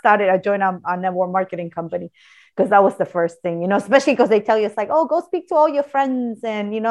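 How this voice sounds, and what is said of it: Usual voice. Nothing is said of it.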